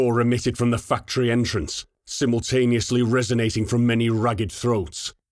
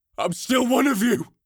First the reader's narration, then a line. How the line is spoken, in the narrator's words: Kinney roared back at the Horde